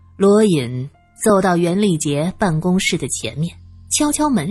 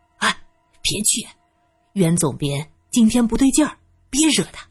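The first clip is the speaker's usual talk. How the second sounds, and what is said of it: Hurried, hushed urgent call. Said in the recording (Chinese): “急忙小声的喊着”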